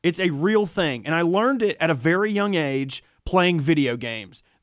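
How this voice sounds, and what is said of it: Rustic, rural-sounding accent. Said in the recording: “my rube accent”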